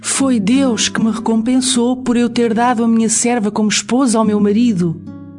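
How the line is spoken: Exclaiming. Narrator (Portuguese): Lia exclamou

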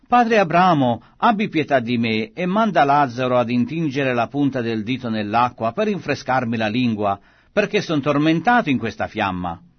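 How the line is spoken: Anguished exclamation. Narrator (Italian): essendo nei tormenti esclamò

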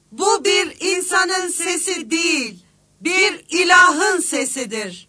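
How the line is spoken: Shouting. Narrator (Turkish): diye bağırıyordu

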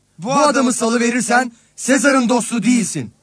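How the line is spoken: Crowd shouting. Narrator (Turkish): diye bağırıştılar

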